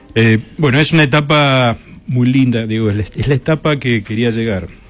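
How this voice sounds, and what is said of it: Deep announcer-style voice. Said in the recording (Spanish): “Tiene voz de locutor.”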